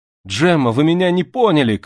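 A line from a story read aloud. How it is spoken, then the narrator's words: Shout. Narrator (Russian): крикнул Артур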